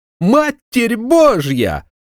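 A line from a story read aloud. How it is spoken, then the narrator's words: Shrieked. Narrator (Russian): взвизгнул он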